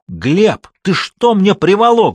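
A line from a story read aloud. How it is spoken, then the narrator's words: Yelling. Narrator (Russian): завопил в ответ Бриль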